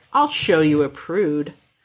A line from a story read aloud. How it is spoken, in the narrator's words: He growls, voice rough and thick